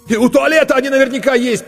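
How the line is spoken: Almost shouting. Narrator (Russian): почти закричал Коля Корноухов

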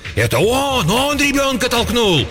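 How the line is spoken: Frantic shrieking from crowd. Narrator (Russian): В толпе кто-то истошно вопил

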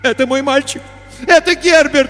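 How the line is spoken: Struggling shout. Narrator (Russian): вырываясь, кричала она

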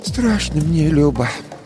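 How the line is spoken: Sighing old woman. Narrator (Russian): вздохнув, сказала баба Маша

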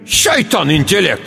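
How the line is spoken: Shout. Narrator (Russian): крикнула Лебек

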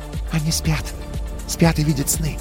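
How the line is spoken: Whisper. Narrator (Russian): прошептала Ри

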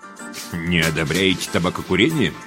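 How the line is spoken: Knowing snort. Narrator (Russian): понимающе хмыкнул Зайнеке

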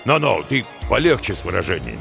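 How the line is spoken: Displeased. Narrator (Russian): Нахмурился шеф

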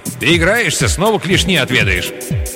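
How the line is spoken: Growling. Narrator (Russian): Оро продолжал рычать

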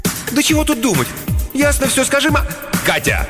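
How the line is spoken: Sharp shout. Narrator (Russian): Олегу пришлось прикрикнуть

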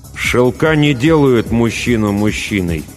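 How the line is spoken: Through gritted teeth. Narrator (Russian): добавил сквозь зубы

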